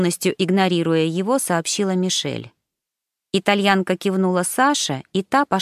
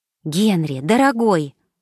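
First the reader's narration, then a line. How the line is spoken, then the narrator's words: Agitated. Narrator (Russian): взволнованно произнесла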